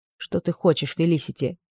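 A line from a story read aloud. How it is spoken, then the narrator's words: Quiet question. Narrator (Russian): тихо спросила она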